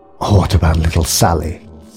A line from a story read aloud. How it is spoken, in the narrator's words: spat the woman scornfully